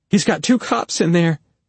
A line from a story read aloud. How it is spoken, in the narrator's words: she said urgently